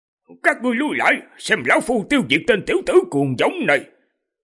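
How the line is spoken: Contemptuous old man's shout. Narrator (Vietnamese): lão cười khinh miệt, quát

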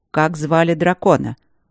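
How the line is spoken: Cold question. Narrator (Russian): холодно уточнил Тандаджи

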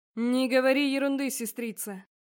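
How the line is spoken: Man's deep bass. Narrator (Russian): пробасил один из мужчин

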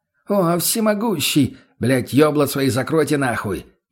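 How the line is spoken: Roared. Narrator (Russian): взревел

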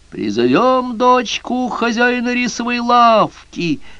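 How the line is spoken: Shouting. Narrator (Russian): закричал красный черт

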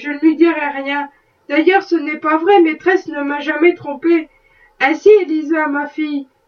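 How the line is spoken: Plain. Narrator (French): dit son mari

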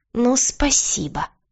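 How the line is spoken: Sarcastic hiss. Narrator (Russian): прошипел кот, криво усмехнувшись

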